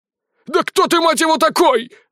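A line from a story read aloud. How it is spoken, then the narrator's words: Shouted. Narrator (Russian): закричал Ярусенко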